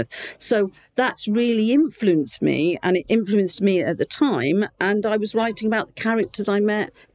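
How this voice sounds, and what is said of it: Slight Portsmouth English accent. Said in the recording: “I don't have a really strong it- Portsmouth accent, but I've got a bit of a Portsmouth accent.”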